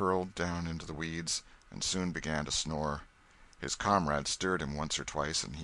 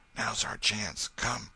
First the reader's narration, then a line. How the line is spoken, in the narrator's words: Tom whispered